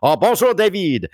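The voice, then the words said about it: Put-on French accent. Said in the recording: “I'm going to start speaking in a French accent from now on so you can tell.”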